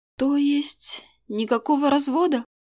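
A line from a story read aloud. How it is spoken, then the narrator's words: Very sad, pleading, female. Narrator (Russian): Совсем печально переспросила я, глядя на него с мольбой и подрагивающими ладонями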